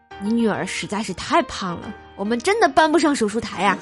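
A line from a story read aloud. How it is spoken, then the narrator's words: Sighing. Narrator (Chinese): 那医生臭不要脸的摇摇头，然后叹道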